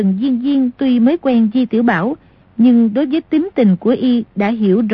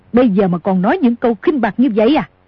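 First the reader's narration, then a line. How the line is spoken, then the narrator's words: Angry shout. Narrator (Vietnamese): Cửu Nạn tức giận quát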